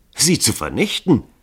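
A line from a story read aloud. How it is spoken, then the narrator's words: Calling, laughing. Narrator (German): rief Dragomilow lachend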